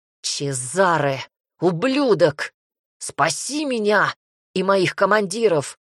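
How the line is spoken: Straining growl mid-fight. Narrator (Russian): зарычал я, с трудом сдерживая атаки Реми

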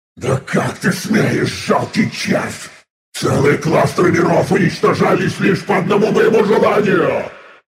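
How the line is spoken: Thundering, maddened booming voice. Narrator (Russian): Буквально грохотало пространство обезумевшим голосом

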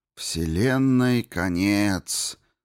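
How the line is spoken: Deeply tragic tone. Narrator (Russian): сказала Дип глубоко трагичным тоном

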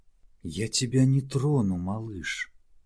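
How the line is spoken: Gentle call. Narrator (Russian): мягко окликнула его Домина

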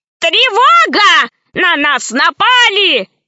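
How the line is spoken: Old man shouting. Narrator (Russian): закричал старый профессор

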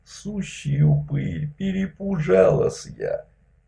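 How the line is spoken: Thin, high voice. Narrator (Russian): Тонким голосом сказала

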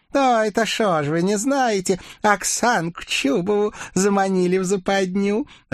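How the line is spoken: Joyful laughing witch. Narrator (Russian): Радостно рассмеялась ведьма

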